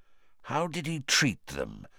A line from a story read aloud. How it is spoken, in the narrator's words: Moody asked quietly